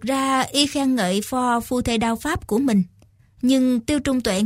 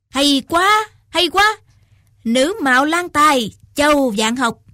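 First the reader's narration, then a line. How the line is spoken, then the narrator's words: Loud exclamation. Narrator (Vietnamese): Lâm Ngọc Long lớn tiếng quát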